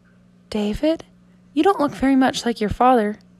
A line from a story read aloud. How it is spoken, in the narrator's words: Julie very softly, so the father couldn't hear